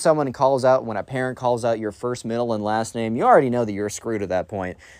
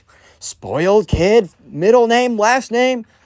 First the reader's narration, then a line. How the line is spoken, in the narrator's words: the spoiled kid's mom immediately starts yelling